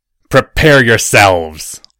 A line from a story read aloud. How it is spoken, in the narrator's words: roared Draco at his troops